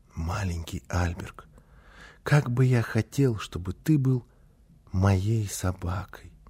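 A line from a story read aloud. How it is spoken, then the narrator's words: Soft secretive whisper. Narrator (Russian): еще крепче прижал к себе щенка и тихонько, так, чтобы мама не слышала, зашептал ему на ухо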